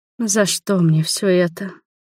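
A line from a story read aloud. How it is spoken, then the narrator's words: Quiet plea. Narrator (Russian): взмолилась я тихонько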